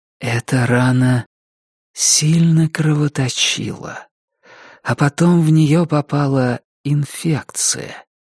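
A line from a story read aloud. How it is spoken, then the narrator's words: Husky sensual female voice. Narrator (Russian): проговорила она своим хрипловатым чувственным голосом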